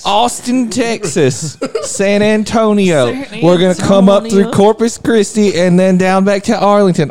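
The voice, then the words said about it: Put-on Texas accent. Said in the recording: “am I getting the accent right?... She's in Texas”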